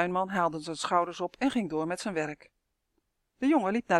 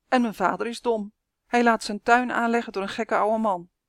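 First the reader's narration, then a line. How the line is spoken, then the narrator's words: Boy calling out. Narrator (Dutch): riep de jongen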